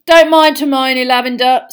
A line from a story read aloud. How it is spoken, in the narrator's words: said Ron loudly